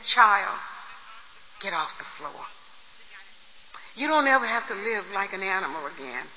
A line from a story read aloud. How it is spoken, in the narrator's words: kissed me gently and said